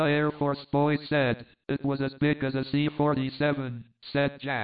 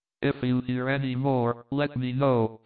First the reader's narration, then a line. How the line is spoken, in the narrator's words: I said